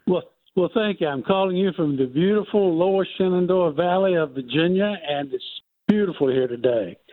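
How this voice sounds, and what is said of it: Speaks with a noticeable accent. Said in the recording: “I love your accent, sir.”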